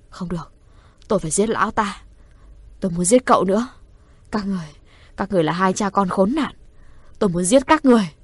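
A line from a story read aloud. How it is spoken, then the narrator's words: Hateful mutter. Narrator (Vietnamese): Hứa Thu Mạn lẩm bẩm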